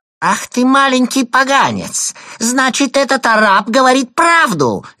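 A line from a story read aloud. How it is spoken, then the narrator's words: Shrill screaming. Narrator (Russian): визгливо закричала она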